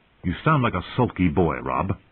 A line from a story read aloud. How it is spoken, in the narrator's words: Caitlin said sharply